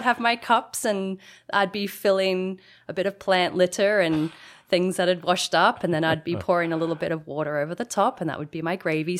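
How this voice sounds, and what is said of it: Australian accent. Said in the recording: “as listeners can tell from your accent, you've come to Canada from down under, from Australia.”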